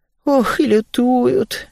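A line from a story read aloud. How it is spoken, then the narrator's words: Heavy sigh. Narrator (Russian): тяжело вздохнула Весея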